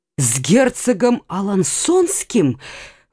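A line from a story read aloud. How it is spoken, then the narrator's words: Exclamation. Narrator (Russian): воскликнул Лямоль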